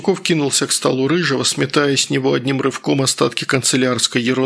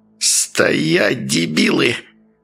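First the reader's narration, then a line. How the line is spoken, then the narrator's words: Hissed. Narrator (Russian): прошипел Васюков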